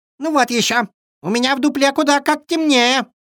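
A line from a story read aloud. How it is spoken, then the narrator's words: Squeaking squirrel. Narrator (Russian): запищала белка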